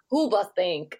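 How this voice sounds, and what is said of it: Exaggerated German accent. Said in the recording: “Very racist German accent”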